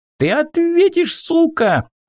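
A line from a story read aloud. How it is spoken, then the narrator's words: Thin high-pitched shout. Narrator (Russian): закричал тонким голоском один из храбрецов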